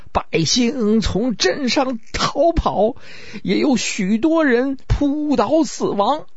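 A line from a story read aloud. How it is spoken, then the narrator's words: Tearful reply. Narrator (Chinese): 这位带着哭腔回答说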